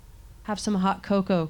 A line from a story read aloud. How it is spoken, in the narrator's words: Kirsten whispered